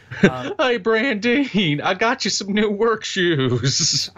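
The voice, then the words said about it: Dim-witted slack-jawed yokel character voice. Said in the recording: “A guy like Cletus would talk like this. ... You gotta have the stupid voice. ... Cletus the slack-jawed yokel”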